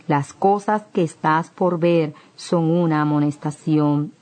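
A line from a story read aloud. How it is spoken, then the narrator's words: Plain. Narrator (Spanish): dijo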